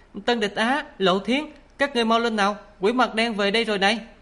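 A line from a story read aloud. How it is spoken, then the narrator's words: Loud call. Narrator (Vietnamese): Mồ Cờ lớn tiếng gọi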